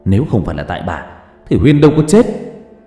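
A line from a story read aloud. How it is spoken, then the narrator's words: Hissing anger. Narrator (Vietnamese): Huy gạt tay của bà X rồi trở về phía bà Thêm mà rít lên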